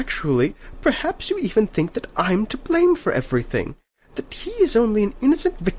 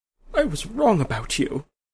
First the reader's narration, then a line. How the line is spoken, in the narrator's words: she said in a choking voice